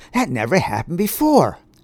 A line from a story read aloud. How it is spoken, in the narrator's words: exclaimed one of the boys